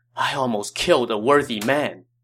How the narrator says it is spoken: sighed

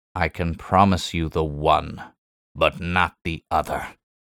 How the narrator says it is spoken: he snarled

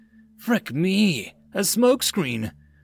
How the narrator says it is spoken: Mulls cried out in surprise

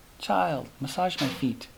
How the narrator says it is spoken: said in an affectionate tone

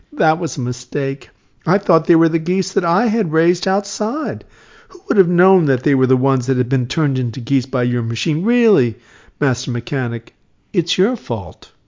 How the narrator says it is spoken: said again, giggling

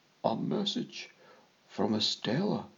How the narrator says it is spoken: he muttered

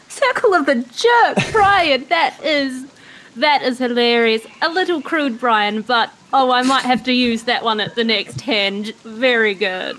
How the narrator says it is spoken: I'm like crying, laughing

